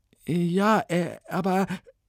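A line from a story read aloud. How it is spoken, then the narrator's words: Stammering. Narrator (German): stammelte Ilona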